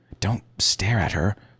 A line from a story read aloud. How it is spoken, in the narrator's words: she hissed